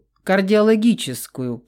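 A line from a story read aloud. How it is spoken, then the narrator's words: Through clenched teeth. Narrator (Russian): процедил Давид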